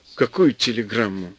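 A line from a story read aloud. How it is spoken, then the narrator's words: Plain. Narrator (Russian): спросил он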